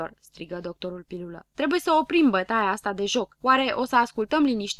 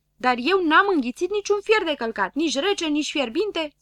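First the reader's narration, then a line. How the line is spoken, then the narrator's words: Hurried shout. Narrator (Romanian): strigă grăbilă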